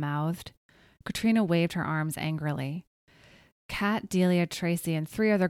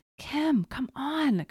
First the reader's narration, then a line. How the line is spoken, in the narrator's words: Katrina whispered angrily